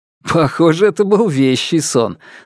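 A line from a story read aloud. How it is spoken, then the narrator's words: Laughing. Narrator (Russian): засмеялся я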